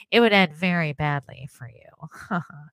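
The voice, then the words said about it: Nasal imitation of another person. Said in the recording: “Me think he's kind of nasally... Very Mr. Burns... my Epstein impersonation”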